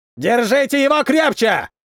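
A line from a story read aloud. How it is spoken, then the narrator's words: Yelling. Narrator (Russian): орал один из них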